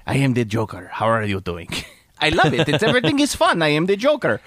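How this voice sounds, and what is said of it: Guillermo del Toro impression, Hispanic accent. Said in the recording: “Guillermo del Toro ... I have a Hispanic accent”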